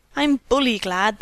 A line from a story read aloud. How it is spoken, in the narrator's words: exclaimed